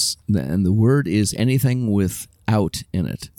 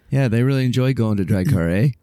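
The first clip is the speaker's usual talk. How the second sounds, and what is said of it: Mock Canadian accent. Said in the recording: “We're teasing... it's just the way that they say certain words that you can tell it's a Canadian accent”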